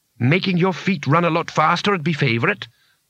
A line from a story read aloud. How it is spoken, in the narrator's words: said Bethan grimly